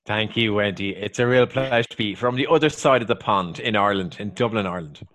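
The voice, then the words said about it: Irish accent. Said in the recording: “I love your Irish accent”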